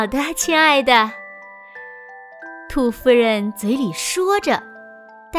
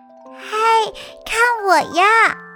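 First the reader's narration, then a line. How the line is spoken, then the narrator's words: Playful muffled shout. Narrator (Chinese): 兔宝宝也想玩，它藏在毛巾后面喊着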